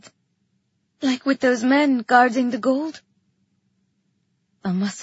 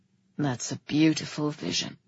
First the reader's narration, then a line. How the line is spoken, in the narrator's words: he said, his voice rough and soft